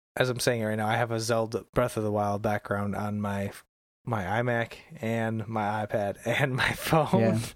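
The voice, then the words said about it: Voice starting to go hoarse. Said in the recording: “I'm losing my voice now, or at least starting to.”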